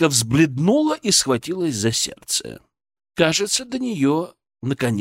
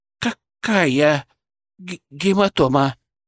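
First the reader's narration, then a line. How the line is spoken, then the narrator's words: Babbling, flustered. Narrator (Russian): пролепетала она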